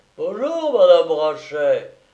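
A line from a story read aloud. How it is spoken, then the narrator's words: Exclamation. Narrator (French): s'écria la concierge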